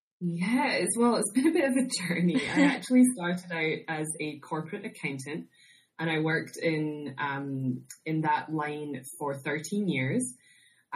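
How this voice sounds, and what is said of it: Scottish accent. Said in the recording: “I'm originally from Scotland, if you can't tell from my accent.”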